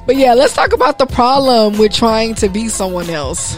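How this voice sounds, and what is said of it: Strained, congested voice. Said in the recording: “excuse my voice ... we over here dealing with allergies ... There's a lot going on up here”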